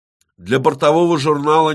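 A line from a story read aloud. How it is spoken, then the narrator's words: Loud statement. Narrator (Russian): Ермолай громко произнес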